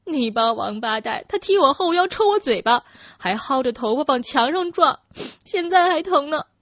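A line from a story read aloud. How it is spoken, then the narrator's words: Aggrieved sobbing. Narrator (Chinese): 她委屈的大哭起来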